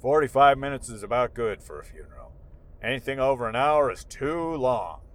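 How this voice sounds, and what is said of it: Imitates another person's voice. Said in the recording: “that's a good impression of him. My dad impression... That's how my dad talked.”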